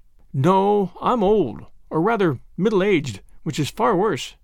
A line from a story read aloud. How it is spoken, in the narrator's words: sighed Miss Lavendar